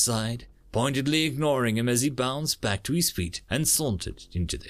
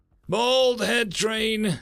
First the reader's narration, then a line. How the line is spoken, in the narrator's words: Samson called out